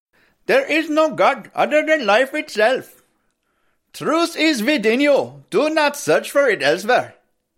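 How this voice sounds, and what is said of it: Put-on Indian accent. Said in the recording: “let me do my Indian, because I want to do my Indian accent here”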